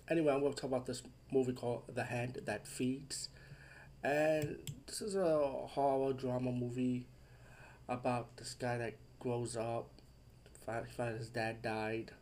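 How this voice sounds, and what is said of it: Congested, off-sounding voice. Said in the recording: “Sorry if I sound off. I have a bad cold”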